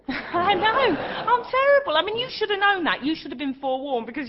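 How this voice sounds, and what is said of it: Cockney accent. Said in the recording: “your Cockney accent”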